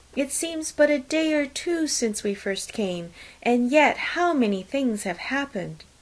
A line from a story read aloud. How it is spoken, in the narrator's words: cried Maria, after a few minutes' silence